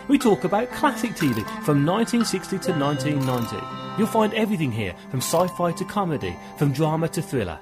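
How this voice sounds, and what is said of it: British accent. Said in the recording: “I love his accent ... awesome folks from the UK”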